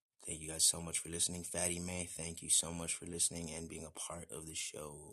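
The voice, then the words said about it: Raw, strained voice. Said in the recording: “My voice is raw from all the talking.”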